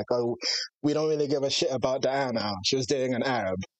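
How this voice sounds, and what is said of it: Attempted English accent. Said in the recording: “That was my best accent. I'm sorry.”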